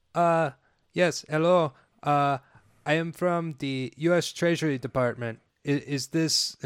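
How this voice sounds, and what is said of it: Put-on foreign accent, phone caller. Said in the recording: “You do a great accent.”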